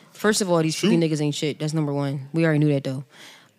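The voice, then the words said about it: Whispering. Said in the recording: “Why'd you whisper? ... She whispered.”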